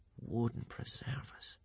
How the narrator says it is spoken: he murmured

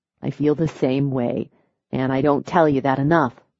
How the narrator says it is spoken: he murmured, touched by her words

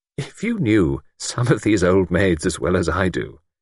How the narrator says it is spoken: he murmured

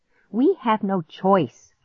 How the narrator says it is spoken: I snapped

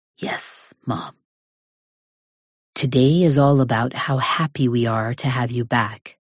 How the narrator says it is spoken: she says

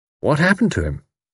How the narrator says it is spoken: asked Tommy

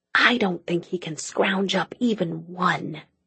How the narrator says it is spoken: Cassie whispered

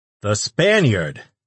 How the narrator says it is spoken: the announcer shouted to the crowd

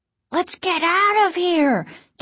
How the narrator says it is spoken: Casey cried ... in fear

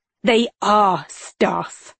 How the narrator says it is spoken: he growled

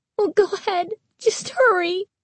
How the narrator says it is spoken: Carly Beth pleaded

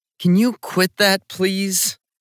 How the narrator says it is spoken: I said to my roommate Corey feeling awful

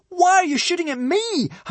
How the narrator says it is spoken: howled a sprinting Hiccup

